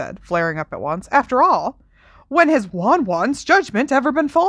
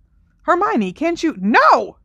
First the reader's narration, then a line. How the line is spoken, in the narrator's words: She said angrily